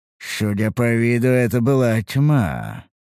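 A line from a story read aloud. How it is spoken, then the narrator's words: Thoughtful drawl. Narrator (Russian): протянул я задумчиво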